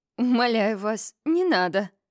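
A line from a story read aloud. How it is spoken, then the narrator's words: Moaning. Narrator (Russian): простонала я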